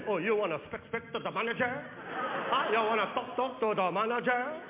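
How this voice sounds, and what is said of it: Mocking imitation of a foreign accent. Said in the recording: “the guy started making fun of my mom's accent”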